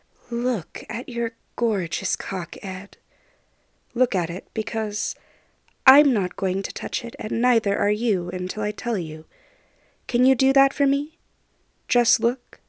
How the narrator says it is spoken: Steed murmurs

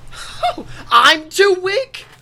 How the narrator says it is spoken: I scream in his face

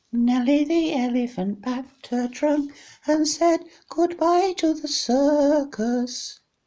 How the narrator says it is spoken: In a falsetto voice, sang

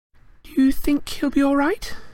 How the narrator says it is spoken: said Hermione nervously

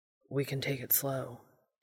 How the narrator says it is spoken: Dean began, his voice huskier than it had been even moments before

